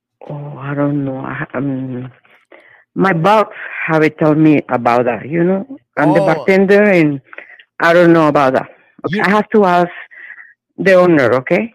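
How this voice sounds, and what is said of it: Foreign accent, sexy voice. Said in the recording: “You got a sexy voice, my God. ... I love that accent.”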